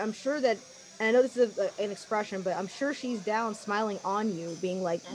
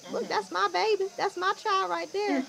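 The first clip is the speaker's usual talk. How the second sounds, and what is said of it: Poor imitation of a grandmother's voice. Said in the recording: “obviously that's a horrible impression of your granny that I've never met or ever heard ... I don't know what St. Thomas accent sounds like.”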